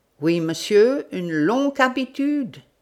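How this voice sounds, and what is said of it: Strong German accent. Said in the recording (French): “avec un fort accent tudesque”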